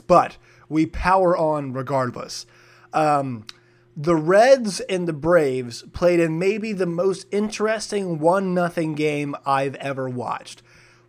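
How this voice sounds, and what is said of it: Raspy voice. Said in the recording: “if my voice sounds raspy today ... No idea why my voice sounds like this”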